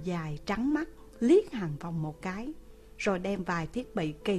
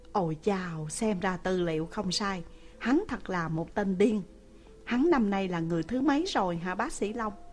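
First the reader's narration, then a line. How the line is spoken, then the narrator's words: Sighing. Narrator (Vietnamese): Hàn Phong thở dài một tiếng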